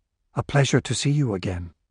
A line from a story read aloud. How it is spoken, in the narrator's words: said, nodding gravely